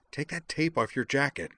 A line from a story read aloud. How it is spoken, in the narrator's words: said Azalin in an urgent hiss